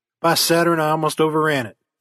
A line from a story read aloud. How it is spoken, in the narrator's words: he exclaimed